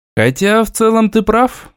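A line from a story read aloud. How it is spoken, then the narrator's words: Sigh. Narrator (Russian): вздохнул я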